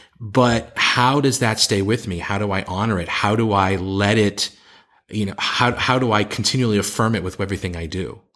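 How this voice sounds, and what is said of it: Strong distinctive accent. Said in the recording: “my crazy accent”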